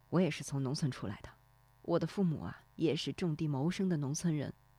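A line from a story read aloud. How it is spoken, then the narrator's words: Quiet. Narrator (Chinese): 低声说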